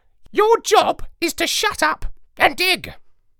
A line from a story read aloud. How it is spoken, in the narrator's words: The parrot said in a haughty voice